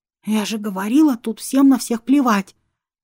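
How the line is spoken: Excited whisper. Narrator (Russian): воодушевленно шепнула

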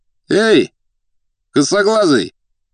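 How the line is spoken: Shouted. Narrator (Russian): крикнул один из деловых

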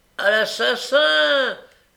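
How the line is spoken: Shouting. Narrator (French): criait Noé

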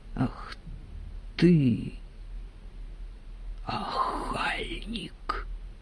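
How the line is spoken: Quiet female voice. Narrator (Russian): тихо сказала Аграфена

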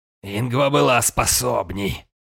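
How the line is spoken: Snorting. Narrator (Russian): хмыкнул он

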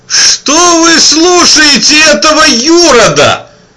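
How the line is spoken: Shout from behind. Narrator (Russian): выкрикнул сзади депутат Зайцевич

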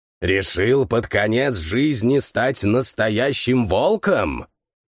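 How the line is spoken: Respectful growl. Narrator (Russian): уважительно прорычал Волхв

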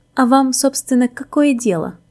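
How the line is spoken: Haughty, through gritted teeth. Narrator (Russian): надменно процедил

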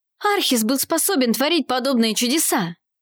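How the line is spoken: Exclaiming. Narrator (Russian): воскликнул он

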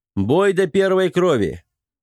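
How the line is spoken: Loud shout. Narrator (Russian): громко крикнул

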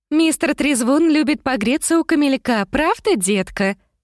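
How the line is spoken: Cooing. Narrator (Russian): проворковала Бриджит

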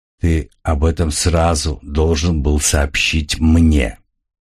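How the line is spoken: Dead cold voice. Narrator (Russian): мертвым и холодным голосом произнес Сал

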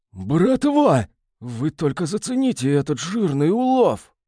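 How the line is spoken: Excited voice dropping to whisper. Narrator (Russian): едва не заорал, но осекся и заговорил шепотом

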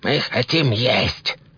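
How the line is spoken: Very slow hiss. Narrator (Russian): прошипел один из них настолько медленно, насколько это было возможно

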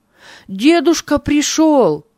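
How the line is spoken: Shouted. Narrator (Russian): закричал Авий

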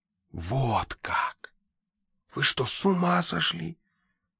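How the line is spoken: Whisper. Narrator (Russian): прошептал репортер

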